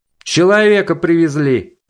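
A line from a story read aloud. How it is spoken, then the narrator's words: Sudden yell. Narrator (Russian): Неожиданно заорала фигура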